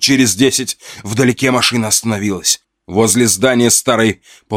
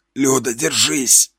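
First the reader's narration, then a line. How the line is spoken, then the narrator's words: Hoarse, spluttering. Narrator (Russian): прохрипел я, отплевываясь тем, что скопилось у меня во рту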